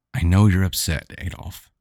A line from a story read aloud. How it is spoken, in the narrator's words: she said in a tender, understanding tone